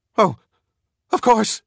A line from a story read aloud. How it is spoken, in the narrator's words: she cried hysterically